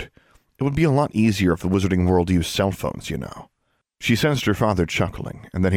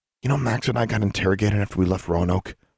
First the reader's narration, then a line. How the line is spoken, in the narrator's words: she said under her breath